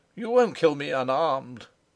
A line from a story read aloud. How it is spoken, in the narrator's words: cried Rupert, in alarmed, scandalised expostulation